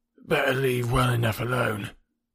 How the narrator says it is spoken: grumbled Wilson

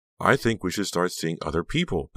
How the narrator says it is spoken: Becca added, her voice shaking

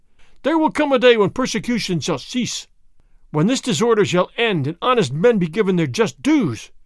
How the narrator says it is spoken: Fray Felipe cried

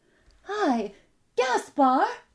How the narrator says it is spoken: she shouted

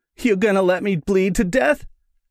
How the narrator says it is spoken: he whined

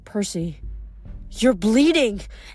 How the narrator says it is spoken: Amberth cried

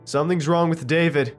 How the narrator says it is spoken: shouted

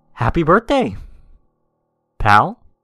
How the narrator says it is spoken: say, excitedly

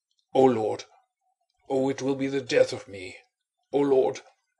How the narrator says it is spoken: moaned the man in a louder voice

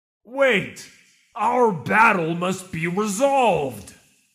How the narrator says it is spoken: bellowed the Colossus

